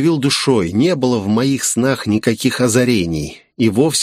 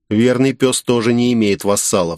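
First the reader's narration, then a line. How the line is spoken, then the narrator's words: Plain. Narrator (Russian): сказал я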